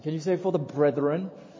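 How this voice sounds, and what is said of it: Light put-on British accent. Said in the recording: “With a little bit of a British accent.”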